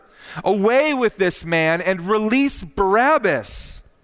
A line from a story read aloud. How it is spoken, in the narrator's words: they all cried out together